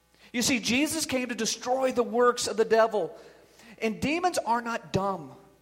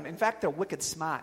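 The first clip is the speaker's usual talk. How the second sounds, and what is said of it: Put-on Boston accent. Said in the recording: “A little Boston accent there.”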